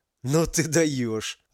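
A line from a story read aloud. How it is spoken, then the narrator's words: Laughing. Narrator (Russian): рассмеялся парень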